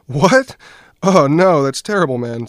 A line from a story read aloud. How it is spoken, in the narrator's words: said Dan, trying not to laugh